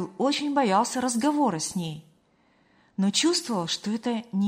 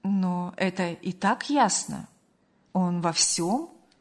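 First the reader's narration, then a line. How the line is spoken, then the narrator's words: Calm, restrained. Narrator (Russian): Спокойно и сдержанно заметила мать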